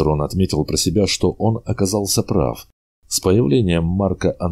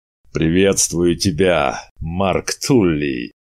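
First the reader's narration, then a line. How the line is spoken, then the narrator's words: Powerful booming voice. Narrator (Russian): Прогремел мощный голос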